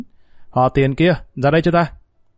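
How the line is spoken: Loud bellow. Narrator (Vietnamese): Gã hít một hơi dài quát lớn

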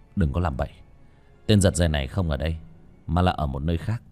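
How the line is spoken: Cold. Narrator (Vietnamese): Ba Cổ lạnh lùng

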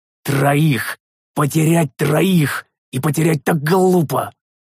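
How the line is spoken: Hissed. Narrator (Russian): Прошипел я

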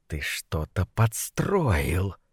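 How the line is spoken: Hissing. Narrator (Russian): прошипел он

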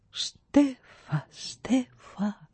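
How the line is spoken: Trees whispering. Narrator (Russian): шептали вокруг деревья

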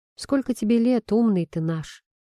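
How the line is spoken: Serious questioning tone. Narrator (Russian): серьезным тоном, поинтересовался я

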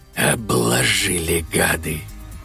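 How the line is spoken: Whispered statement. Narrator (Russian): Шепотом констатирует Пиздум

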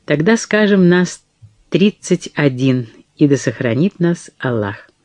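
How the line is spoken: Calm, faintly smiling voice. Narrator (Russian): тень улыбки, судя по тембру голоса Мансура, когда тот спокойно ответил

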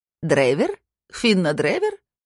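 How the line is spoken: Cooing, cracked voice. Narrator (Russian): проворковала она надтреснутым голосом

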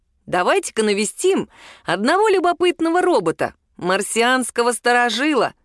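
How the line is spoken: Suggesting. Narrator (Russian): предложил

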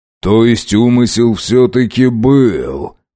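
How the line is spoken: Drawl. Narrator (Russian): протянул Касатонов

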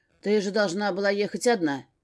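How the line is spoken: Growled. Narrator (Russian): рыкнул

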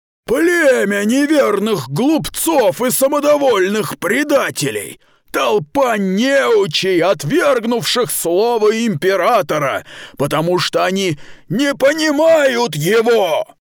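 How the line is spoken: Cave-shaking shout. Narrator (Russian): Он вновь выкрикнул то же самое, повысив голос так, что задрожала пещера

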